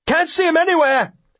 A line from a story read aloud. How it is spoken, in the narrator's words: hollers one of the gentlemen